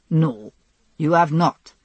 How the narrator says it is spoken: he said firmly

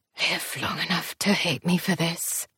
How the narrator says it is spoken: sounded like he whispered

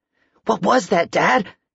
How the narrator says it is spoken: Michael asked, his voice hoarse

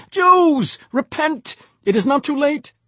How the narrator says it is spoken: A voice, Uncle Shepsel's, cried out

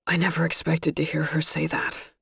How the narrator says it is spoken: Gus said breathlessly

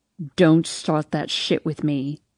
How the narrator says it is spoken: he growls

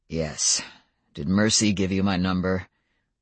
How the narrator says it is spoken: he said in an almost civil tone

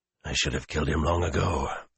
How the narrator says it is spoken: Luce Theron panted

